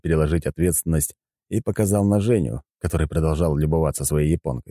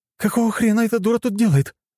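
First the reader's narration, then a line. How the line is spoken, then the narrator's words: Exclamation. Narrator (Russian): воскликнула Аня, не стесняясь в выражениях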